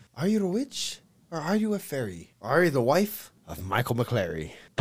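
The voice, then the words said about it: Attempted Irish accent. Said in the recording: “Can you read in Irish? Like, somebody sing can that in an read? Irish accent.”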